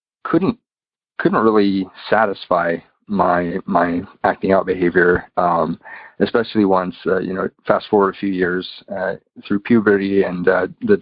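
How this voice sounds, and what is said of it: American accent. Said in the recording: “I'm from the United States, if you can tell by my accent.”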